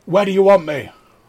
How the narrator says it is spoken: I'll shout

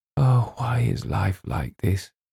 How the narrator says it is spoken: James heard her whisper

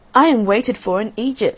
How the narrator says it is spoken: said the swallow

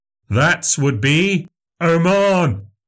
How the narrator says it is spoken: they shouted

